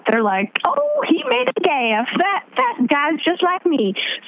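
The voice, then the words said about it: Put-on Southern accent. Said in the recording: “I don't know why I gave them a southern accent”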